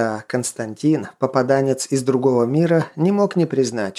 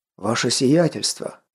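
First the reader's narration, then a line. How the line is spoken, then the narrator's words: Breathless exclamation. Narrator (Russian): выдохнул один из них с золотым шнуром сотника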